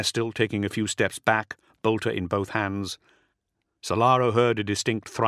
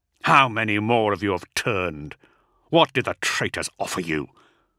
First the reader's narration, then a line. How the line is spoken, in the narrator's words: Agapito snarled